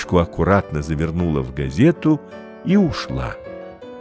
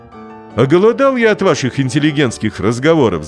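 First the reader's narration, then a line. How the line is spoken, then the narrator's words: Sudden shout. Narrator (Russian): закричал вдруг Пронин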